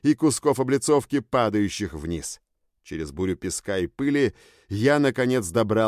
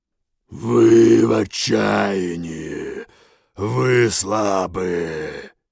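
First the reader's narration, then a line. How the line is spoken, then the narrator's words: Heavy booming bass. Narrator (Russian): прогудел его тяжелый бас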